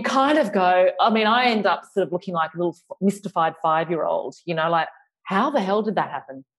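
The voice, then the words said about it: Australian accent with a lisp. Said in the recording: “my lisping and my Australian accent”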